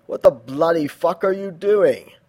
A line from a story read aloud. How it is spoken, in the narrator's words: Angel laughed